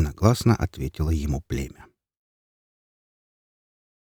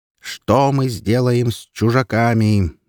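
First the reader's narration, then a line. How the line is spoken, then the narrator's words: Wolf yelling. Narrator (Russian): завопил тогда волк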